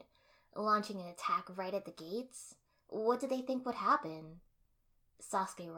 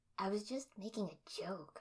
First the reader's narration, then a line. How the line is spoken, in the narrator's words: I muttered